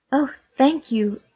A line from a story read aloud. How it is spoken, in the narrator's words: answered Nycteris feebly from behind the tree